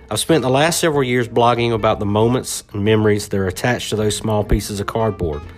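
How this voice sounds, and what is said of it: Thick Southern American accent. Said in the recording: “I've been talking with this thick southern accent for over 40.”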